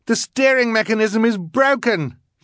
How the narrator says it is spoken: she yelled

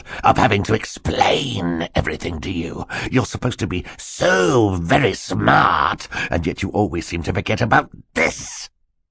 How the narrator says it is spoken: Stefano snarled

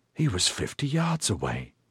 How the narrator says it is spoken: Oberon whispered in astonishment, and no small measure of apprehension

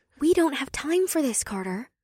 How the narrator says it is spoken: Janine whispered

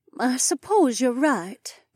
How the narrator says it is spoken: Emma said in her elegant accent

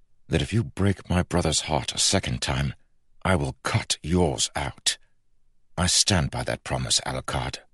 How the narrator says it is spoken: snarled Kel through clenched teeth

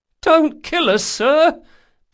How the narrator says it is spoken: pleaded the captain a skinny man of about 30

